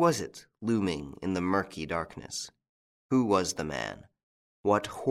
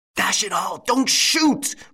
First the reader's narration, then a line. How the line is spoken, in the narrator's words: roared Lupin